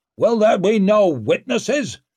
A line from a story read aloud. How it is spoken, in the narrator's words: shouted Barazin